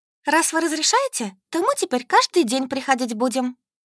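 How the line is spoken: Joyful assurance. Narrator (Russian): радостно заверила всех Солька

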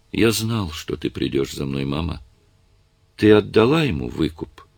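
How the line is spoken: Weary question. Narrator (Russian): устало спросил

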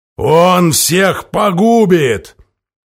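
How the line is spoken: Deep bass voice. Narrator (Russian): Здоровяк пробасил

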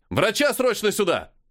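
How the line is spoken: Someone shouting. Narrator (Russian): закричал кто-то

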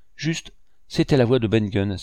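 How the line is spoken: Exclaimed. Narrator (French): s'écria Morgan

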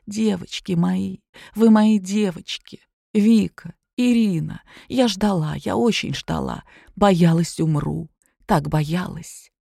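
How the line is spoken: Quiet, breathless, holding back sobs. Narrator (Russian): Только дышала тяжело и прерывисто, потом, сдерживая рыдание, произнесла тихо

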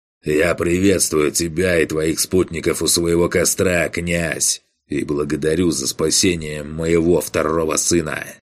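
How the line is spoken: Growling. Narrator (Russian): прорычал Хольгрим

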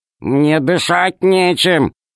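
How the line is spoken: Grumbling. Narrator (Russian): проворчал Р

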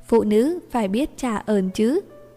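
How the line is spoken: Teasing tone. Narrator (Vietnamese): bổ thêm một câu với giọng điệu trêu đùa

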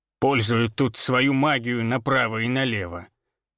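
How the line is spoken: Grumbling. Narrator (Russian): проворчала Ирма

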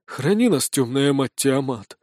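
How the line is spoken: Breathless exclamation. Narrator (Russian): выдохнул форточник

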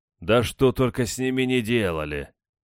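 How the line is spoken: Heavy sigh. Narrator (Russian): Феофан тяжело вздохнул

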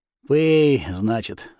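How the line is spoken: Sighing sorcerer. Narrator (Russian): вздохнул колдун

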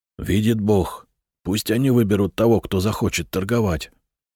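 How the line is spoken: Whisper to neighbor. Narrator (Russian): шепнул Надир своему соседу

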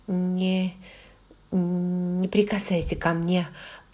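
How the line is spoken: Through clenched teeth. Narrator (Russian): процедила сквозь зубы

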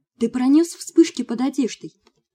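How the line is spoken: Exclaiming. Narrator (Russian): воскликнула я

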